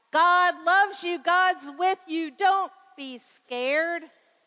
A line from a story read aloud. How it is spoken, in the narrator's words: Dad hollered back